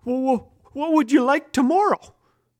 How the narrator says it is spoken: said in a shaky voice

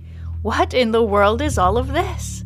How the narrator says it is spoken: exclaims Farfalla

